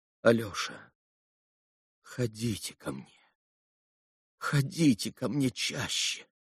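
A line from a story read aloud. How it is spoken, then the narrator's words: Sudden pleading. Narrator (Russian): проговорила вдруг молящим голосом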